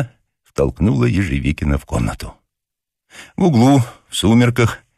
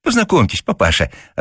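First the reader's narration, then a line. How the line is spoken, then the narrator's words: Joyful chirping. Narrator (Russian): радостно защебетала Зося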